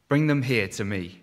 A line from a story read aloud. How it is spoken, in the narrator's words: he said